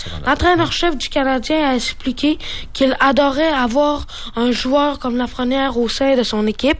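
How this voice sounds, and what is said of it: Slight Saguenay regional Quebec accent. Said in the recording (French): “Il y a un petit accent, par contre. Il vient-tu du Saguenay?”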